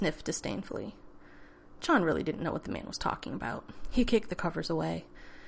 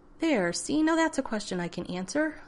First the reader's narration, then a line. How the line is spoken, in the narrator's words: man said a little too brightly, like he was talking to a child or someone of limited intelligence